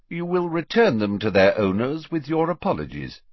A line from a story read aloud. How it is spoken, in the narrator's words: said Dumbledore calmly